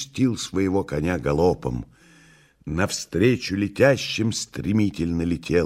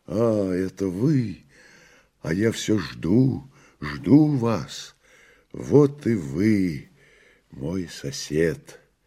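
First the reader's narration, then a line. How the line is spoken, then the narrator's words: Joyful. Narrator (Russian): сказал радостно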